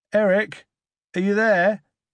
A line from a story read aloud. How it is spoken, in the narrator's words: shouted Gabe